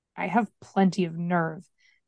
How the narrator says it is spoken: muttered

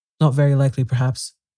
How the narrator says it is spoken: said the knight

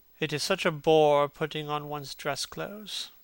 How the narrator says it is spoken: muttered Hallward

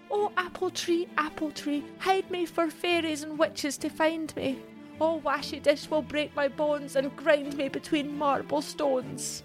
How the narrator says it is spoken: Mary pleaded

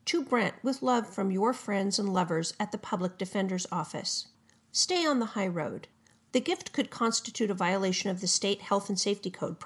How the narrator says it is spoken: prosecutors said

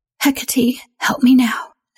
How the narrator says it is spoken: whispered

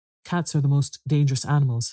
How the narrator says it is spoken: said Mrs

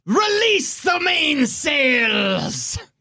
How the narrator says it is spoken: Captain Belbarum screams

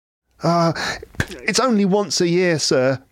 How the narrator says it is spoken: pleaded Bob

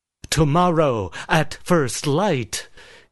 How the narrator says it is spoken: he said loudly

